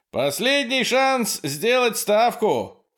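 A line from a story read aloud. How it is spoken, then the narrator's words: Shout. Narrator (Russian): крикнул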